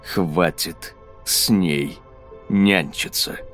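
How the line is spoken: Clipped, deliberate. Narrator (Russian): отчеканил каждое слово Ксейден

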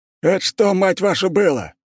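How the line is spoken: Officer yelling into radio. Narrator (Russian): орал в рацию старший офицер

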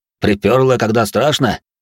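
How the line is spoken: Guard's chuckle. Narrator (Russian): хохотнул конвоир

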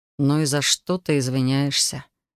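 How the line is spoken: Soft inquiry. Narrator (Russian): мягко поинтересовался он

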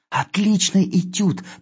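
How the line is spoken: Hurried whisper. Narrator (Russian): торопливо шепнул я

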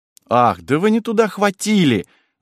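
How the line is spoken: Annoyed old woman exclaiming. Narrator (Russian): с досадой воскликнула старуха

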